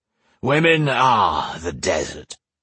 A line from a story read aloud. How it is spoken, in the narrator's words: he slurred